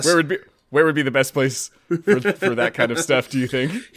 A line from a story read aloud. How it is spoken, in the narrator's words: He laughed